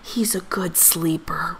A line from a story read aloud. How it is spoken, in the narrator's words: whispered Papa